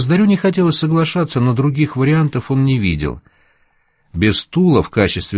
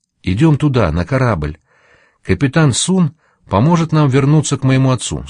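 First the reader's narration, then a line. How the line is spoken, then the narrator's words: Plain. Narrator (Russian): сказала Нита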